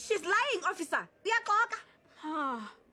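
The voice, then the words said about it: Shouting. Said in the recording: “stop shouting”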